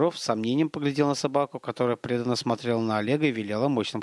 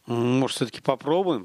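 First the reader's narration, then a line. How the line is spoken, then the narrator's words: Plain. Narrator (Russian): сказал он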